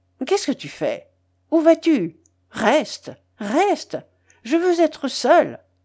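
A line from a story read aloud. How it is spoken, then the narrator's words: Irritated exclamation. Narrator (French): s'écria-t-il d'une voix irritée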